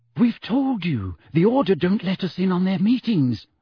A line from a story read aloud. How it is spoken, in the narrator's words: said Hermione nervously